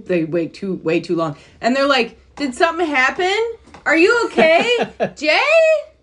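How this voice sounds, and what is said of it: Michigan accent. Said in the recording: “she got a Michigan accent when she did it, too ... I always have a Michigan accent”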